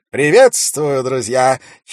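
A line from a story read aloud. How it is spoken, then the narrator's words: Clear loud orator's voice. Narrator (Russian): четко и громко сказал какой-то человек, судя по тону и интонациям, искусный оратор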